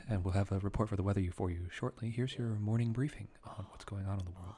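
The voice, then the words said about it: Smooth public radio announcer voice. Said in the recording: “work on NPR every morning and just go”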